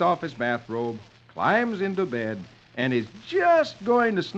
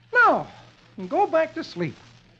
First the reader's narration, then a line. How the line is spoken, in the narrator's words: saying cheerfully